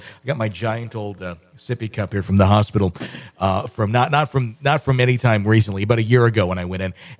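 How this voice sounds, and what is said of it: Rough, unwell-sounding voice. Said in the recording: “My voice is not all that good, as you can tell from the bronchitis that I'm dealing with.”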